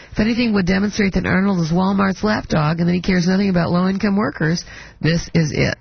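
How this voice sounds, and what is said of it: Sick, under-the-weather voice. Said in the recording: “I'm sorry to hear you're under the weather... My voice is.”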